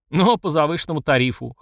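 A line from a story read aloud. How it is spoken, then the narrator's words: Smirking grunt. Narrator (Russian): хмыкнул я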